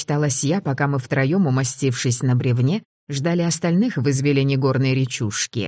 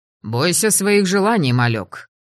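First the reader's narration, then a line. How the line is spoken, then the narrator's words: Grumble. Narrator (Russian): буркнула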